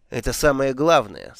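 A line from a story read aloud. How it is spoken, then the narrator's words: Plain. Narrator (Russian): сказала матушка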